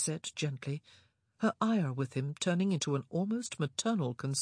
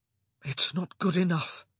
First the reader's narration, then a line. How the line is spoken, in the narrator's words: he said hoarsely